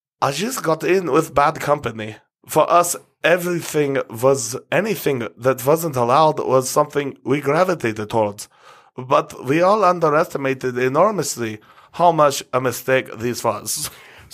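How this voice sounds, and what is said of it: Put-on German accent with lisp. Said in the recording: “Your German accent almost had a lisp”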